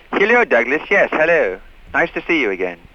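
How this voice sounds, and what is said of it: Put-on classier, posh accent. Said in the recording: “What's with the accent? ... learn to talk with a little more couth ... Kind of classier ... classier, spiffier”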